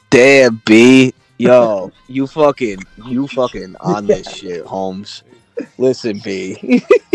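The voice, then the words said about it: Put-on accent. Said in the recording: “that accent is real ... It's literally that accent.”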